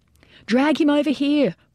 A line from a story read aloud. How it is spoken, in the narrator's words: Boland hollered